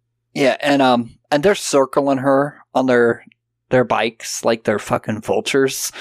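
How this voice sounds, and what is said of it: Usual voice. Nothing is said of it.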